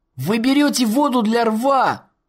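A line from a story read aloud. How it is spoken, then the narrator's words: Loud shout. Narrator (Russian): громко выкрикнул Эк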